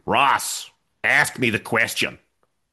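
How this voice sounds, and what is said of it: Poor put-on Brooklyn American accent. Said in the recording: “in his Brooklyn accent ... That's a terrible American accent”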